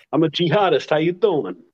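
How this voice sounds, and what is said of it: Put-on New York accent. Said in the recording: “Who speaks with a New York accent, by the way.”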